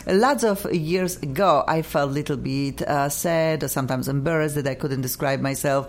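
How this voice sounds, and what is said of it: Polish accent in English. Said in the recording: “you and I, we have an accent ... We have perfect Polish in us”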